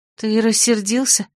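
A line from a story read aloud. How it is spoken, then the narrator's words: Wary question. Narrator (Russian): наконец спросила Дора опасливо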